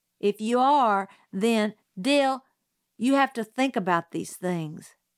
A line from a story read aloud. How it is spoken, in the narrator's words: Jim said